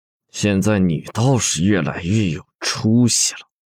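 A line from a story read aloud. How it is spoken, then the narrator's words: Through gritted teeth. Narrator (Chinese): 他几乎是咬牙切齿的说道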